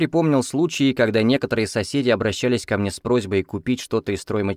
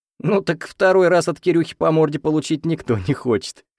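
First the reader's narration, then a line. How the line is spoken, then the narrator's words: Chuckling. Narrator (Russian): хохотнул Андрей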